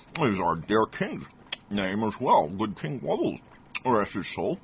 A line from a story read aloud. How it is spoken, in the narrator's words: the traveler mumbled